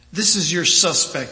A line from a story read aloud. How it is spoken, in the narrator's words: he says